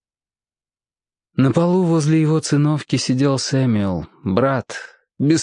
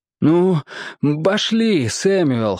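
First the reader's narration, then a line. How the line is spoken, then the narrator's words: Exclaimed. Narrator (Russian): воскликнул он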